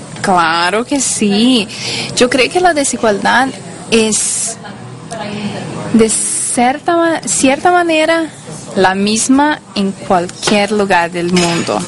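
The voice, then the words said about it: Spanish with a Brazilian accent. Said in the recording (Spanish): “yo soy de Brasil, eh, por eso mi español no es la, mejor cosa del mundo ... Con el acento brasileño”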